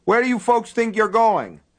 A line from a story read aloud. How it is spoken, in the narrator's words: he shouted